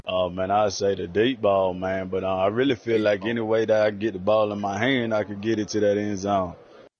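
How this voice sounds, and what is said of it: Strong Southern South Carolina accent. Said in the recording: “It's almost like a character of me doing a Southern accent, and it's really his. ... this is like vintage South Carolina accent”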